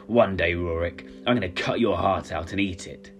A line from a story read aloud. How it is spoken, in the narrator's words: he snarled